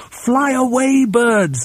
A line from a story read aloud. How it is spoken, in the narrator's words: they used to shout